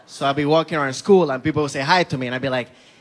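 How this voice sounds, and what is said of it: Speaks with a noticeable accent. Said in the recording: “I didn't like having an accent when I was growing up ... girls think my accent is cute”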